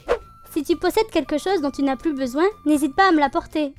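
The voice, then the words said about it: Southern French accent. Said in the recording (French): “j'ai l'accent du sud qui est sorti, je crois.”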